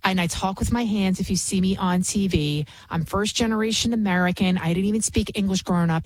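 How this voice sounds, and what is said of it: Bronx New York accent. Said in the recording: “I can be from the Bronx. Obviously, you can hear it in my accent, which I've been trying to get rid of, but it's just a part of who I am.”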